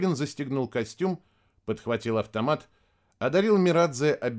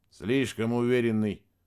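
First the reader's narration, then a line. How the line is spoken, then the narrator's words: Grumbling. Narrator (Russian): проворчал Мирадзе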